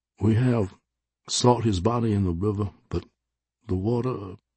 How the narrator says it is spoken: he said, his voice trailing off

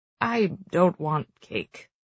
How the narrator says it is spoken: he grumbles

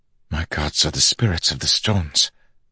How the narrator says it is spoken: Zeth whispered

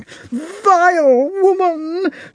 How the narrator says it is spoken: shouted the princess

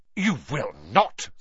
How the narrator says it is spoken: snapped Mrs

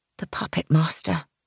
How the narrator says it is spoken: I murmured

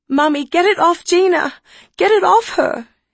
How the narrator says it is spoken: she sobbed

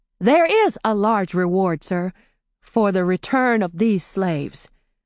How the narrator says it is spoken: she said slowly

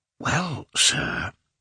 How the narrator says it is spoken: said the porter, whispering

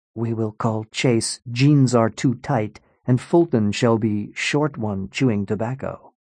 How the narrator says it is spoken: Hassan whispered to Colin

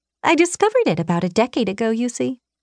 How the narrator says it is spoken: she chirped

